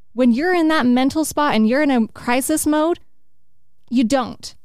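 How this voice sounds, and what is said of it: Yelling, fired-up delivery. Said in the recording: “Why are you yelling at me? ... I'm just fired up.”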